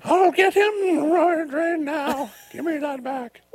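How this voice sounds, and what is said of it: Bad impression of elderly woman. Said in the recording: “my horrible impression of her ... 90-year-old Betty”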